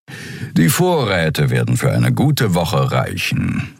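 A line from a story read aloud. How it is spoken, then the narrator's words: Purring. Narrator (German): schnurrte Suran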